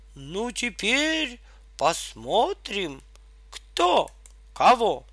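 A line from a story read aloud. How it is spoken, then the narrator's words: Exclaiming. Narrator (Russian): дровосек воскликнул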